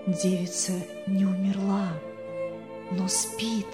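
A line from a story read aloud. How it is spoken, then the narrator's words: Whisper in ear. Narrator (Russian): пастор шепнул ему на ухо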